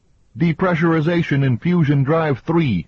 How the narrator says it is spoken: Roman shouted

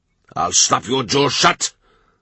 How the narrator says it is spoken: Owen Maddock bellows

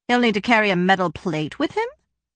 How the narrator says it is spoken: Frava said dryly

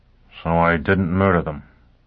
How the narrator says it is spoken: Foyle grunted

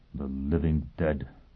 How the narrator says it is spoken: he mumbled

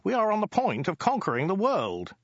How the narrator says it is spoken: interrupted Ogdai urgently

